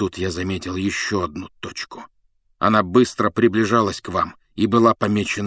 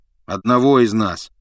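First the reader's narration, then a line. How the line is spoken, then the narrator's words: Gloomy correction. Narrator (Russian): мрачно поправил его Рон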